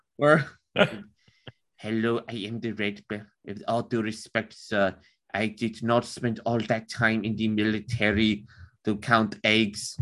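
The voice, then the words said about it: Stereotypical German accent. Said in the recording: “I can pull off a German accent... Granted, it might be a little like stereotypical. It'd be like Werner Herzog... That's actually pretty good.”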